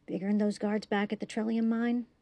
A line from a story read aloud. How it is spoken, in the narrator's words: Tripp whispered back